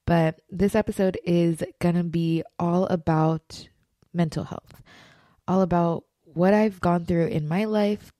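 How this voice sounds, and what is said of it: Slightly rough voice with cough. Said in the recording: “hear it in my voice, but I do have a little cough. ... I have a little tickle in my throat”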